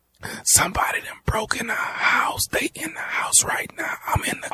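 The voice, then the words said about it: Whispering. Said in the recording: “why in the hell are you whispering?”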